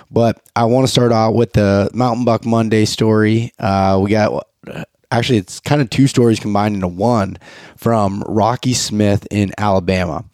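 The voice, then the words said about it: Sick-sounding voice. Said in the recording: “I apologize for my voice. I've been sick”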